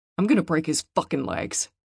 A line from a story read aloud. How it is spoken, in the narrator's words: snarled Jupiter